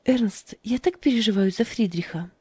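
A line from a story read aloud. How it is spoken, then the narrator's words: Sighing. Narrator (Russian): вздохнула Фрида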